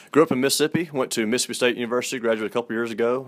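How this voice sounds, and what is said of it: Southern US accent. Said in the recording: “I can hear it in your voice. I love the Southern accent ... your southern accent to me means that you sound like a southern gentleman”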